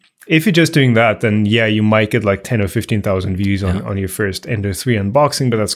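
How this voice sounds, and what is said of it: Usual voice. Nothing is said of it.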